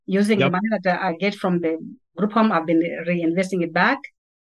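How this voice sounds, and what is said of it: Slight foreign accent. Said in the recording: “I noticed a little accent”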